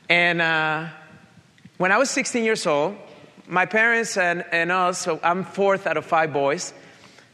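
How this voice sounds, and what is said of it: Colombian accent with Italian influence. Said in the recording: “you probably picked up by my accent right now. I'm originally from Colombia, South America ... So I have a Colombian accent with an Italian suit.”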